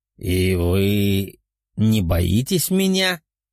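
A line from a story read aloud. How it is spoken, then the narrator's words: Menacing demon voice. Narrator (Russian): грозным голосом спросил демон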